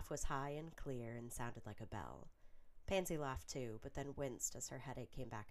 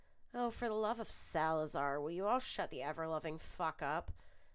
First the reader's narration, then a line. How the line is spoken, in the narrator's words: Millicent's voice rang from behind her curtains